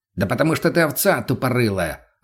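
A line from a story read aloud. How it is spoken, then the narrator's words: Snapping. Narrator (Russian): огрызнулся мутный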